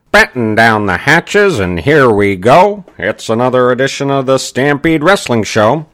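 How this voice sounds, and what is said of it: Ed Whalen impression, announcer voice. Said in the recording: “still working on my Ed Whalen impression.”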